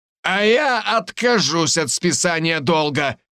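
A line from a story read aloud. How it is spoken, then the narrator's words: Shouted, puffy man. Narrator (Russian): выкрикнул один слегка опухший мужчина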